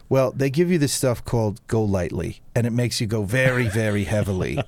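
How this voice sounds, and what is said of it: Weak put-on New York accent. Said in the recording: “I'm not doing his New York accent well, ... sounds better in a New York accent.”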